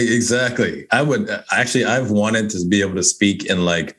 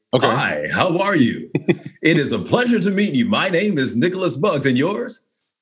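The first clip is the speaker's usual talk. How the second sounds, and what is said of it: Announcer voice. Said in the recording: “announcer voice”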